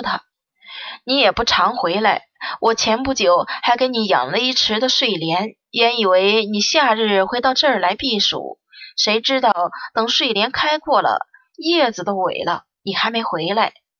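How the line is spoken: Smiling grandmother. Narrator (Chinese): 外祖母也笑着说

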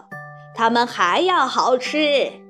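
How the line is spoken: Exclaiming. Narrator (Chinese): 旺卡先生叫道

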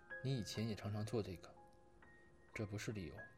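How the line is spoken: Choked yet firm. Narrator (Chinese): 语气哽咽，同时又坚硬

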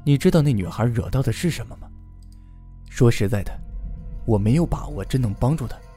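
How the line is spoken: Sighing. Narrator (Chinese): 白毅叹了口气，继续说道

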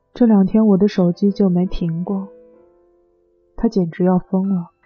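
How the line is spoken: Sighing. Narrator (Chinese): 小鱼……叹息道

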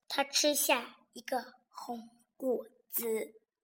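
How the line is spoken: Quiet, hushed. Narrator (Chinese): 霸王龙小声地说

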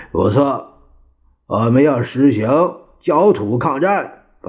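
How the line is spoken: Through gritted teeth. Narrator (Chinese): 蒋介石做咬牙切齿的状态，他说

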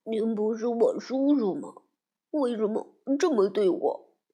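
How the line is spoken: Trembling whisper. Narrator (Chinese): 阿拉丁浑身发抖，小声的问

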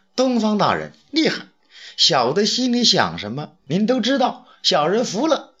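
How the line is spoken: Laughing. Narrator (Chinese): 杨得意笑了

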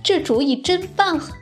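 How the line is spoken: Laughing. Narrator (Chinese): 小刺猬笑了

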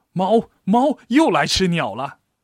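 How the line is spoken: Calling out from downstairs. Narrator (Chinese): 李婶在楼下叫道

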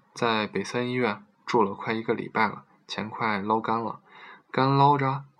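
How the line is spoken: Plain. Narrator (Chinese): 我问

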